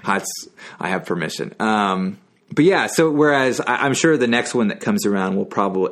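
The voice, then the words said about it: Texan accent. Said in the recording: “he's Texan, by the way. So yeah, he's allowed to use that accent.”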